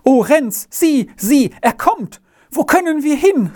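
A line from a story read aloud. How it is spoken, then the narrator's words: Terrified cry. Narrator (German): rief es schreckensbleich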